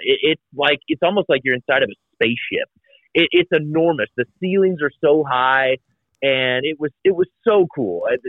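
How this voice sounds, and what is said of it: Giddy, excited childlike delivery. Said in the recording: “you sound like a kid in a toy store ... you're giddy. You sound like a 10-year-old”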